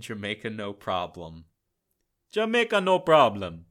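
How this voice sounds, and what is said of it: Attempted Jamaican accent, not convincing. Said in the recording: “That's not too bad. I mean, it's not a Jamaican accent.”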